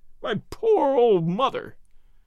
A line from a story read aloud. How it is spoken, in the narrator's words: he sobbed